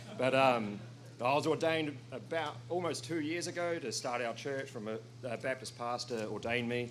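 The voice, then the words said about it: New Zealand accent. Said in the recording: “I'm from New Zealand. I'm not speaking in tongues, all right? It's just my accent”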